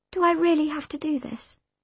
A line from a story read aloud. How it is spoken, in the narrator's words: I asked, my voice quivering